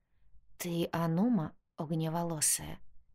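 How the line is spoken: Quiet question. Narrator (Russian): тихо спросила Ркасса

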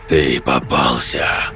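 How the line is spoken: Hoarse rasp. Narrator (Russian): прохрипел голос

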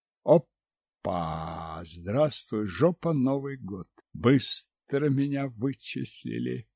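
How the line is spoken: Silent inner mutter. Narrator (Russian): Мысленно пробормотал я

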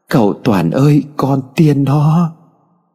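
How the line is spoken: Crying. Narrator (Vietnamese): Loan khóc lóc

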